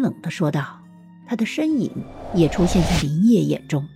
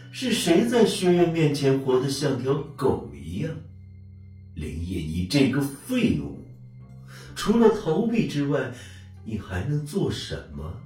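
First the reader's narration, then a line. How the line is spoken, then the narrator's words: Cold sneer. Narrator (Chinese): 阴冷鬼冷笑说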